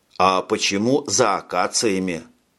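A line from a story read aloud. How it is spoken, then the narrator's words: Plain. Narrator (Russian): спросил Джек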